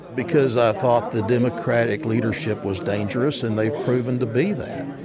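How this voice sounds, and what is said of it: Thick Southern US accent. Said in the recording (German): “dicker Südstaaten-Akzent”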